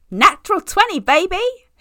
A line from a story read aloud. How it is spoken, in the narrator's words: he hoots as the rest of the table hollers loudly